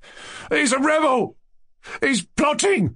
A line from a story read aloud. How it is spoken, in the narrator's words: shouted Lebediev, as though unable to restrain himself